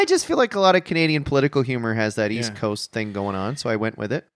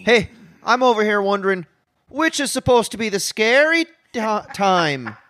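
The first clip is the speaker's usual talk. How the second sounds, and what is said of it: East Coast accent. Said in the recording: “Used a bit of an East Coast accent there.”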